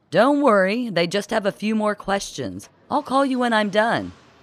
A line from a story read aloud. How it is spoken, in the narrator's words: shouting to Gloria